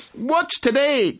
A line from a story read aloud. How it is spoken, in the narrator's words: cried Scrooge, calling downward to a boy in Sunday clothes